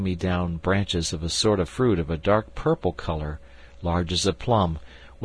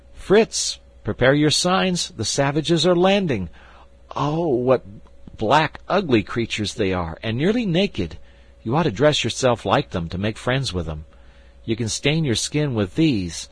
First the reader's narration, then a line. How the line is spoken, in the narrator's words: with his usual rashness, suddenly cried out